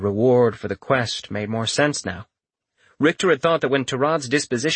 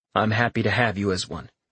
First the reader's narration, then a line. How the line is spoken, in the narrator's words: Richter replied